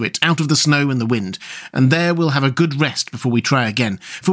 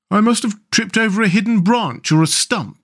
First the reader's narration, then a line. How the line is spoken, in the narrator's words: said the mole miserably